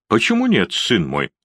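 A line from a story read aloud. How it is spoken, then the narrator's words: Calm. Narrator (Russian): спокойно ответил он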